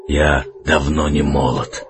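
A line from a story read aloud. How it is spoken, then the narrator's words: Hoarse reply. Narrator (Russian): хрипло отозвался Арман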